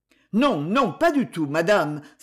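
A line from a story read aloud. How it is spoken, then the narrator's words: King exclaiming. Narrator (French): s'écria le roi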